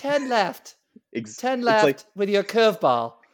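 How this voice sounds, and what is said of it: Female English GPS voice. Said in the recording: “like a female, like GPS voice ... like an English woman, like ... That's exactly like what it sounds like.”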